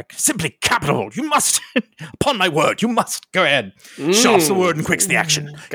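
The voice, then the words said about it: Terrible Russell Crowe impression. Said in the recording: “That was a terrible Russell Crowe impression.”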